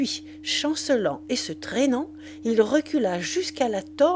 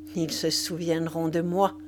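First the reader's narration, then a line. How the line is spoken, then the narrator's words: Murmured. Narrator (French): murmura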